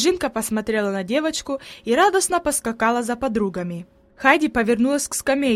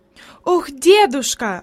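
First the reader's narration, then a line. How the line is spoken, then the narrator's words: Exclaiming while walking. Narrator (Russian): воскликнула она еще на ходу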